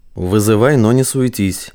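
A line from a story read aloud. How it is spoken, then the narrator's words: Through gritted teeth, into microphone. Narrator (Russian): сквозь зубы процедил Самандар в лацкан костюма, где был укреплен микрофон рации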